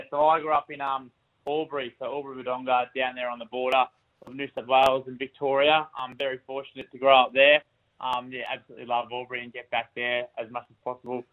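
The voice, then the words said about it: Australian country twang. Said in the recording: “you got a bit of a country twang about you”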